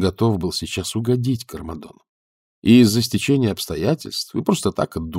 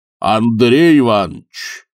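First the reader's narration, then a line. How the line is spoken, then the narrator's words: Deep voice from another room. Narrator (Russian): пробасил из комнаты Земский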